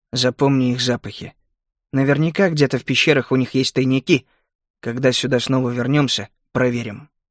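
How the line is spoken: Quiet, over shoulder. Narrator (Russian): я тихо бросил ему через плечо

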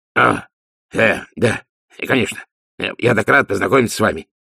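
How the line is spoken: Flustered babbling. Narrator (Russian): пролепетал Ди, захваченный врасплох таким внушительным очарованием

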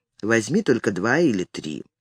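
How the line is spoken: Quiet speech. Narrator (Russian): Том тихо проговорил

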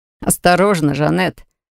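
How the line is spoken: Laughing brother. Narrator (Russian): рассмеялся брат

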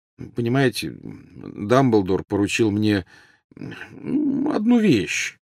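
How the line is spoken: Mumbled. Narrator (Russian): промямлил Гарри

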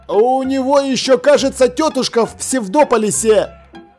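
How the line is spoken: Shouted after someone. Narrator (Russian): Крикнул вслед ему Ваймс

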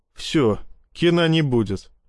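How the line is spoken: Laughing. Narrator (Russian): рассмеялся я

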